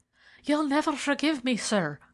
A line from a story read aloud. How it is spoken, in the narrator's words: she gasped